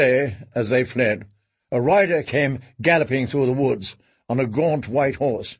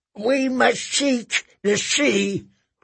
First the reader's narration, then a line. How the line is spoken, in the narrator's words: cried Mother Mole